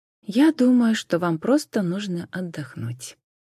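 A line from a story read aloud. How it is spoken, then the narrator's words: Soft. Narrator (Russian): мягко сказала она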